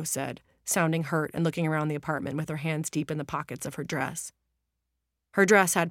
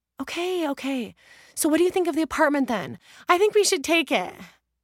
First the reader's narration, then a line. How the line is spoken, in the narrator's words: Julia said breathlessly, because the elevator was broken